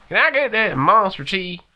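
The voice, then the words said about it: Pittsburgh Yinzer accent. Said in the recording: “That's a really good Yinzer accent.”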